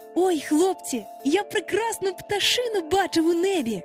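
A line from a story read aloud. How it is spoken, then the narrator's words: Exclaimed. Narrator (Ukrainian): вигукнув Хвалько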